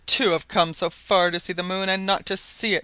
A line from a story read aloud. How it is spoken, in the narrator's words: he cried in a comically piteous tone